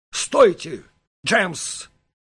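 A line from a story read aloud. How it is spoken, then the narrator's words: Stern shout. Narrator (Russian): строго крикнул Даталлер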